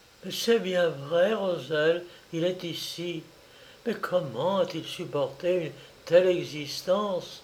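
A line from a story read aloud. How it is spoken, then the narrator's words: Exclaiming. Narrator (French): s'écria la sœur d'André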